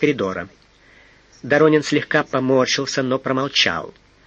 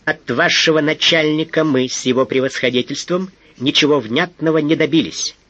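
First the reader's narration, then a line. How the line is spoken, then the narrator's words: Angry, insistent. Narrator (Russian): зло напористо заговорил Бухарцев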